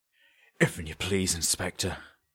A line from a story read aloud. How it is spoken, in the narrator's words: he said, once his coughing had subsided, his voice weaker than before